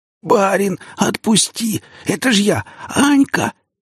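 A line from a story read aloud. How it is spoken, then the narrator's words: Hoarse wheeze. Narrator (Russian): просипела она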